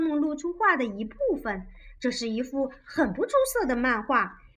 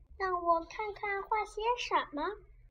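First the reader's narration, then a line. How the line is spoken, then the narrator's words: Hesitant quiet girl. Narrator (Chinese): 女孩子败下阵来，迟疑的小声说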